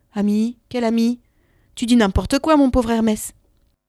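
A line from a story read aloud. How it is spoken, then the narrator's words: Goddess answering curtly. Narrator (French): La déesse lui répondit sèchement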